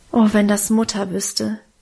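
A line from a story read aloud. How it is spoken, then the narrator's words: Sighing. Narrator (German): seufzte ich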